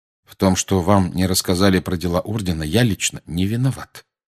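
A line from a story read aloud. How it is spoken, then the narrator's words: Calm. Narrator (Russian): спокойно проговорил Сириус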